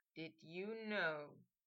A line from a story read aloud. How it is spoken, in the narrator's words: he murmured